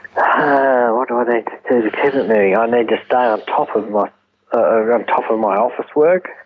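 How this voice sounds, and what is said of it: Australian accent. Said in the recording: “This is an Australian accent.”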